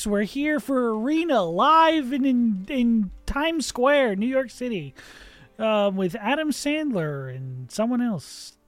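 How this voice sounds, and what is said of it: Saturday Night Live announcer impression. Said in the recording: “That was my Saturday Night Live impression.”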